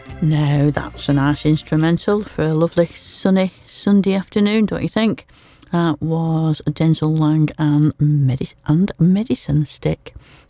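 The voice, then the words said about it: Broad Lancashire accent. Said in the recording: “my broad Lancashire accent.”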